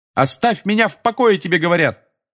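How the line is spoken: Yelling. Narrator (Russian): Заорал Гарри

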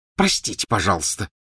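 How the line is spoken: Hissing. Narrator (Russian): прошипела Гермиона

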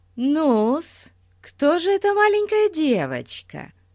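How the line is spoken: Cheerful chirping. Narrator (Russian): Весело прощебетала мисс Трэмбл

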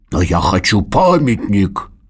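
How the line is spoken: Angry growl. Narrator (Russian): зло рыкнул Норберт

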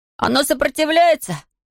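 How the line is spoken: Shouting over humming machine. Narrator (Russian): закричал Том, когда его магнетизатор начал гудеть, как разъяренный шершень

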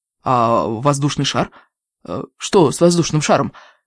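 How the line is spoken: Composed inquiry. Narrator (Russian): поинтересовалась Джумба, на удивление быстро овладев собой

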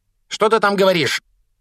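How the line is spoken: Aunt barking through door. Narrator (Russian): рявкнула тетя из-за двери

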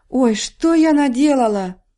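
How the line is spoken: Horrified exclamation. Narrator (Russian): в ужасе воскликнула Элли

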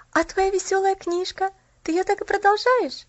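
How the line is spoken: Slightly trembling question. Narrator (Russian): спросила Поллианна слегка дрожащим голосом

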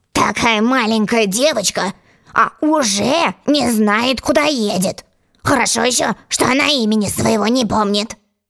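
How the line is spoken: Gentleman grumbling. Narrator (Russian): Джентльмен, сидевший напротив Алисы, проворчал

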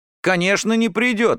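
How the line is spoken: Exclaimed. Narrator (Russian): воскликнул Ромка

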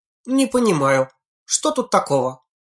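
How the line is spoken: Indignant. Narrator (Russian): возмущенно передернула плечами Синицына

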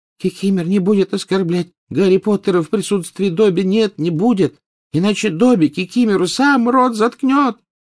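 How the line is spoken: Thin-voiced exclamation. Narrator (Russian): тонким голоском воскликнул Добби

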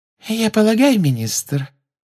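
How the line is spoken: Silky voice from behind. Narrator (Russian): шелковым голоском сказала из-за его спины Амбридж

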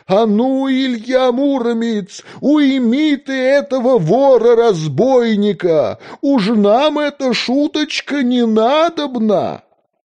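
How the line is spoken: Shout. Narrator (Russian): закричал князь Красносолнышко

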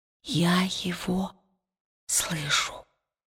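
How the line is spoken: Whisper. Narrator (Russian): прошептала она

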